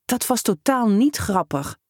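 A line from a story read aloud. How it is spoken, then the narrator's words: Hiss. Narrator (Dutch): siste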